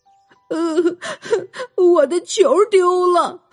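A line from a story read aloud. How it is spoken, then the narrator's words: Crying boy. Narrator (Chinese): 一个小男孩 一边哭一边说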